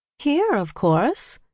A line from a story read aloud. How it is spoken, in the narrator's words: she said brightly